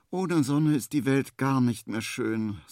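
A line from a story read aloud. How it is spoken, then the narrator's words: Sighing. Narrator (German): seufzt Henry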